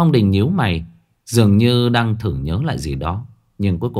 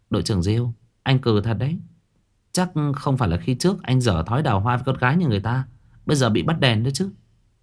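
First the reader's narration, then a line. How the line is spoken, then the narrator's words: Soft giggling woman. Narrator (Vietnamese): Nữ cảnh sát xinh đẹp khẽ khúc khích cười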